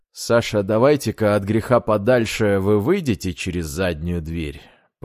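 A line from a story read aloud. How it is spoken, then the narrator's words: Quiet suggestion. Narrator (Russian): тихо предложил инженер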